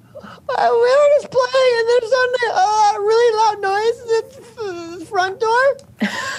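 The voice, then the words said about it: Squeaky character voice. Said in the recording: “in your Martim Trek squeaky voice”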